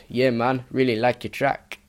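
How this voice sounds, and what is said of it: Badly done put-on accent. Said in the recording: “that was the worst accent ever”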